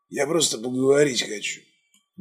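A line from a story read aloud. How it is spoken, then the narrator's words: Breathless exhale. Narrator (Russian): выдохнул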